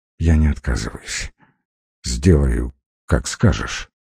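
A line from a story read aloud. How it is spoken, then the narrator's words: Barely audible, frightened. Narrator (Russian): почти физически почувствовал, как пуля впивается в затылок, еле слышно произнес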